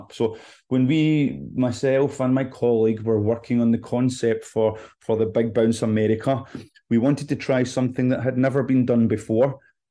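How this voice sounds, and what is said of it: Scottish accent. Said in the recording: “You can probably tell from my accent that I'm not from Georgia. I'm originally from Scotland”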